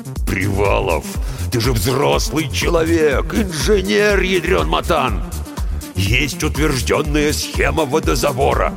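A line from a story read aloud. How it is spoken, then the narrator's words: Growled. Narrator (Russian): прорычал бригадир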